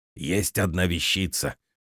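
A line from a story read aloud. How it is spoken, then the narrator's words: Secretive whisper. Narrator (Russian): шепотом произнес, словно нас подслушивал кто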